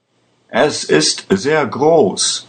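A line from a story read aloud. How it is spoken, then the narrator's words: Shouted. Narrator (German): schrie ein anderer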